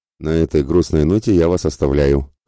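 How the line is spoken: Ironic snort. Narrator (Russian): хмыкнул иронично Мирослав

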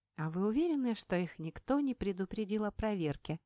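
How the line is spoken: Guilty sigh. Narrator (Russian): Вздохнула я, чувствуя себя предателем Родины

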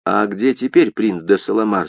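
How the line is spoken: Plain. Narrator (Russian): спросил шевалье

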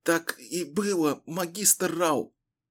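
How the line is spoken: Hoarse rasp. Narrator (Russian): прохрипела Дэнна

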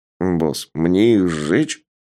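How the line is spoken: Uncertain question. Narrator (Russian): неуверенно спросил пироманьяк

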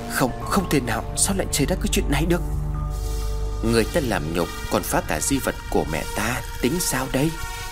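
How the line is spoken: Eerie laughter, hissing. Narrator (Vietnamese): Phi cười lên kèm theo những tiếng rít âm u vọng về

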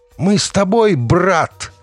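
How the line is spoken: Shout. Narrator (Russian): крикнула Даша

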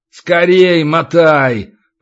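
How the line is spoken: Low booming drone. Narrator (Russian): прогудел Иллай

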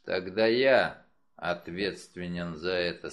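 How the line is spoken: Gloomy. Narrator (Russian): сказал он мрачно

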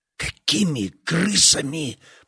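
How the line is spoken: Hissed. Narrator (Russian): прошипел лейтенант

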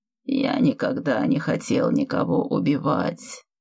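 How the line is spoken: Sad. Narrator (Russian): печально произнес он

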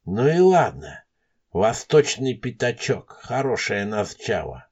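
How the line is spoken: Whispering to himself. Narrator (Russian): сам себе шептал Елисеев

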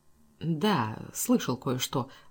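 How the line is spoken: Muttered. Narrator (Russian): пробормотал Симмонс

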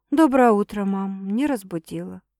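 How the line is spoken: Forced even, cheerful voice. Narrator (Russian): Стараюсь отвечать ровным голосом, как можно веселее

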